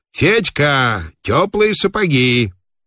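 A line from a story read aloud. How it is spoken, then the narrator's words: Old man shouting. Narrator (Russian): И старичок в сапогах со скрипом крикнул маркеру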